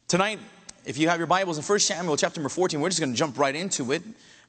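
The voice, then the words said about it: Hoarse voice recovering from laryngitis. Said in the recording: “my voice is still not 100% ... losing my voice midway ... still recuperating from my laryngitis”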